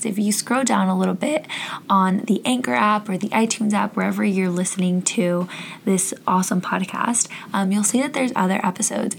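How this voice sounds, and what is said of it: Hoarse, fading voice. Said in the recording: “I don't sound like this all the time. I think I'm losing my voice.”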